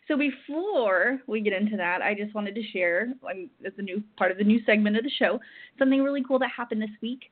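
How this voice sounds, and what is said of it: Very fast speech. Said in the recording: “I'm talking so fast.”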